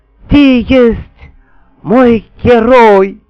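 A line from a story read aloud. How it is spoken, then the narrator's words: Queen moaning admiringly. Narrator (Russian): восхищенно простонала матушка-царица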